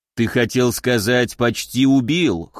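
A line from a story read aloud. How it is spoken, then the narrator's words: Scoffing snort. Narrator (Russian): хмыкнул Уральский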